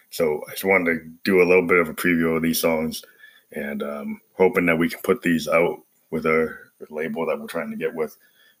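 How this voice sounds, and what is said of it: Hoarse, ragged voice. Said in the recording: “I got this cold and I went through the vocoder and kind of changed the character of my tone, because of, my cold ... you hear my voice is pretty ragged”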